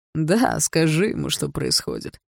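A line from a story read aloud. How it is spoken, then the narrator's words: Laughing. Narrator (Russian): рассмеялся Барс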